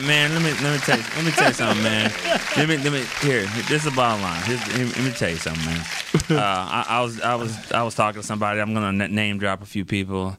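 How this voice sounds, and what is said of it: Imitates another person's voice. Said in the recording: “That's my best Nate impression.”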